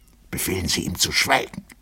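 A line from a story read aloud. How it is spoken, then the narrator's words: Whispered, colonel. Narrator (German): flüsterte der Oberst Festetitsch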